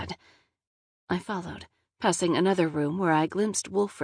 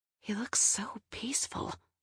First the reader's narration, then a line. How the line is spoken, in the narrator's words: I whispered